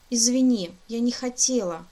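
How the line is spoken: Pleading. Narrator (Russian): взмолилась

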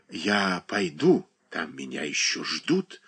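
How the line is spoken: Female whisper. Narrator (Russian): шепотом произнесла собеседница Гиреевой, наклоняясь к самому уху последней

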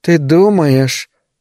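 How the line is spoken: Sweet singsong. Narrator (Russian): пропела сладким голоском

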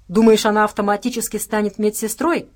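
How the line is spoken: Angry question. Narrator (Russian): сердито спросил он

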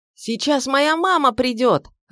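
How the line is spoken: Joyful excited shout. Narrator (Russian): радостно закричал, увидев нас Коля, и от восторга

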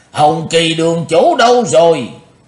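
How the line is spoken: Sudden loud shout. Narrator (Vietnamese): Bỗng nhiên Lý Vân Hạo quát lớn

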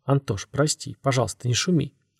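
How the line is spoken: Fawning whisper. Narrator (Russian): Костя заискивающе зашептал

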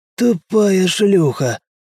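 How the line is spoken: Wheezing. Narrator (Russian): просипел Кросс

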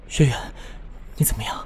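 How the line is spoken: Trembling, frightened voice. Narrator (Chinese): 顾元白……声音也跟着发抖

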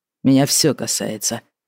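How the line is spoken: Growled. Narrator (Russian): рыкнул

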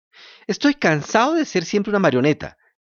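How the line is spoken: Shouted. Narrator (Spanish): gritó Pinocho

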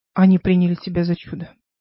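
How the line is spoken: Sighing. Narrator (Russian): Элла вздохнула, прежде чем сказать

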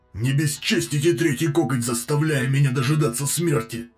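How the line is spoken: Laughter as guttural helmet growl. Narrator (Russian): В тишине раздался хохот, превращенный динамиками шлема в гортанное рычание

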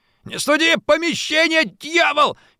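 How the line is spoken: Furious yelling. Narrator (Russian): заорал совершенно вне себя сапожник

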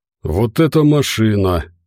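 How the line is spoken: Admiring exhale. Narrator (Russian): восхищенно выдохнул Волынский

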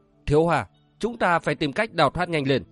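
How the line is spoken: Frightened. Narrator (Vietnamese): Chân Chân lộ rõ tất cả sự sợ hãi, nói với Thiếu Hoa

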